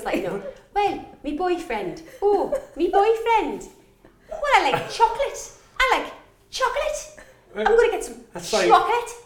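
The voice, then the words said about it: Mixed Irish, Welsh, Scouse, northern accent. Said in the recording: “That's like Irish, Welsh, little bit of Scouser, a Northing.”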